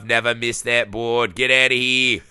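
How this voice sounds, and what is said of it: Kennedy-style accent with Liverpool tinge. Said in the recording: “that's a Kennedy accent. I'm really not doing well on the accent. ... it was Kennedy if he was from like Liverpool.”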